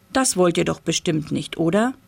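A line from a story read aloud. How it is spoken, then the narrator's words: Plain. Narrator (German): fragte Papa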